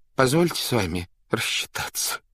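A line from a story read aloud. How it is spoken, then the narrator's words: Crushed whimper. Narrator (Russian): проскулил убитый Степа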